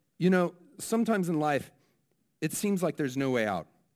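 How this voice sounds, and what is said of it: Attempted New Zealand accent. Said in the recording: “I'm going to try my New Zealand accent here. This may ruin it”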